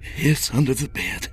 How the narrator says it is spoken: he breathed

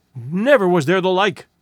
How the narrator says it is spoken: panted one of the hungry folk

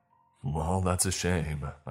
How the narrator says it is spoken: I sighed

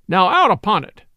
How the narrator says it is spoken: cried he

